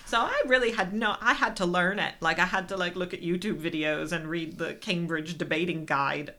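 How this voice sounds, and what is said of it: American accent. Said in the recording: “I am American, surprise. I'm not just putting on an accent.”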